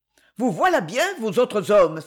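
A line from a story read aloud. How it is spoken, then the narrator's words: Exclaiming. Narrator (French): s'écria-t-elle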